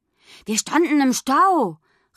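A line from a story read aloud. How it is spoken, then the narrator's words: Reproachful shout. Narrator (German): rief er vorwurfsvoll, so als ob die anderen Kinder daran Schuld gehabt hätten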